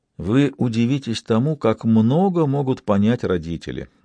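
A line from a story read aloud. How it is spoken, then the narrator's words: Plain. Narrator (Russian): сказал Бувар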